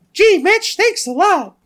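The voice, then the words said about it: Mickey Mouse cartoon voice impression. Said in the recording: “best Mickey Mouse impersonation I've ever done ... I thought it was pretty good.”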